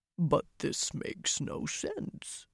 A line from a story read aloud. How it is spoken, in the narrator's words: the Ogier muttered, frowning